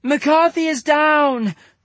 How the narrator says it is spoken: shouted Ganeef

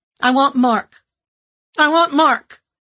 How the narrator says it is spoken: I cried over and over

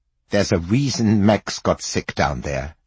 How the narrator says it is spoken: she said

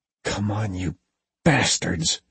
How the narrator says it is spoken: she whispered

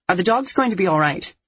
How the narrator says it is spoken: I asked sharply

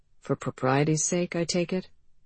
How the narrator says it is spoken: murmured Mr

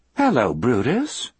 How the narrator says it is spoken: Melinda said in a cheerful voice

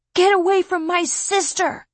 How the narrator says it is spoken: Garrett yell

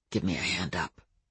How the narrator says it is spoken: Adam said quietly

